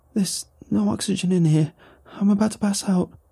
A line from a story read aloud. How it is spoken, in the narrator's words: The woman pleaded